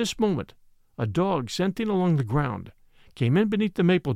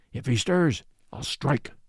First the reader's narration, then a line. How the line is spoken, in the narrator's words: muttered the other